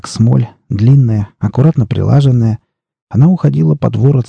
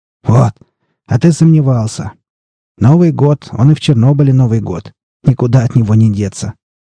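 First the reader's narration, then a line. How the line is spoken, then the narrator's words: Laughing. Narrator (Russian): засмеялся якут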